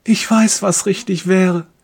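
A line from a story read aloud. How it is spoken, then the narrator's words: Silent inner plea. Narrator (German): fleht er stumm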